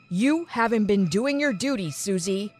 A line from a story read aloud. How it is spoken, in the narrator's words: Dad said sternly